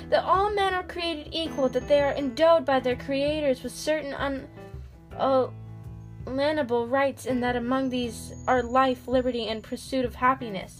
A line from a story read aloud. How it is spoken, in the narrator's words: she shouted